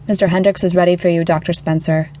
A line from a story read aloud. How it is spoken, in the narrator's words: In perfect English, the coldly efficient receptionist relayed